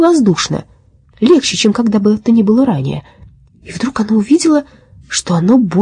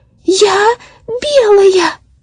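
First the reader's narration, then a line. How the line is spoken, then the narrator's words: Ecstatic shout. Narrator (Russian): закричала оно в полнейшем восторге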